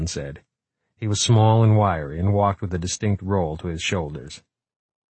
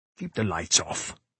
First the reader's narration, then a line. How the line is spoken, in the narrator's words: said Kawakita sharply